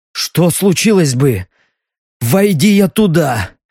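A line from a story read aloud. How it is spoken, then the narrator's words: Hoarse doubtful question. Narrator (Russian): хрипло спросил он, не особенно надеясь на правдивый ответ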